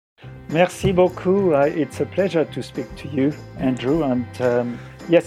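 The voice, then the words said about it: French accent. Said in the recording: “I certainly cook with a French accent, uh, as well as speak with a French accent.”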